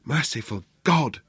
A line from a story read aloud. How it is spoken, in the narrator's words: she whispered